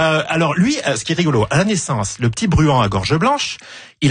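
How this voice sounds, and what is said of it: Usual voice. Nothing is said of it.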